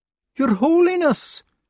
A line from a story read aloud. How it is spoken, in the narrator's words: shouted